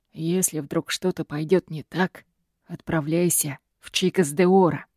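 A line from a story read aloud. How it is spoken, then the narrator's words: Father's soft whisper. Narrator (Russian): тихим шепотом просит папа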